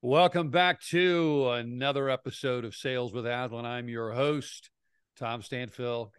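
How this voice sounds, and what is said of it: Put-on smooth radio announcer voice. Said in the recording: “I have a good radio voice today. I feel like I have that good fake radio voice ... You really do have a nice vault. You have good texture to your voice today.”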